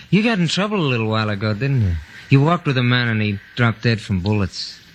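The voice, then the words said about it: American accent. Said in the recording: “you've got quite an American lilt to your voice.”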